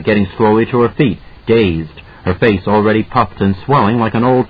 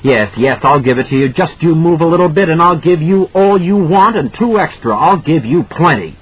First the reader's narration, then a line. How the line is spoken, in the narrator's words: Brett brandishing it hysterically, saying